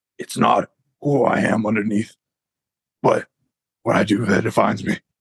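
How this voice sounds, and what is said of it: Gravelly Batman-style character voice. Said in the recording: “like the Dark Knight kind of Batman where he's got like the gravelly kind of voice ... in a Batman voice”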